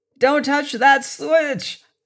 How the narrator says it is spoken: Seaton yelled

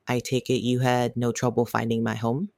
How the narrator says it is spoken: asked

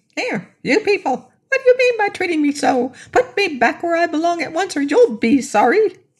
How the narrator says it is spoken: it was a grasshopper, was that it began talking, crying out in a tiny but sharp voice

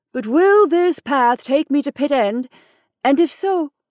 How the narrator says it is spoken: I said, raising my voice

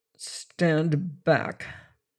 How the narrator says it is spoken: he said thickly

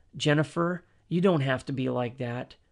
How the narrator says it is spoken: calmly said

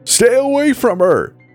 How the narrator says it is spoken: screamed

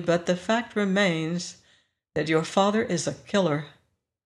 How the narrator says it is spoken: I said softly

